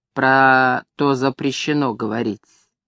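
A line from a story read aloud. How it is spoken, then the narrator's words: Quiet reply. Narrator (Russian): он тихонько ответил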